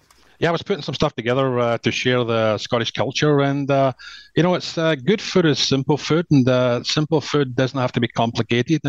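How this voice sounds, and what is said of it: Scottish accent. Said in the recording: “my favorite Scotsman ... I'm the tour Scotsman, just to hear this accent”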